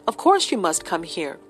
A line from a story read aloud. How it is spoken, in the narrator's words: said Athelney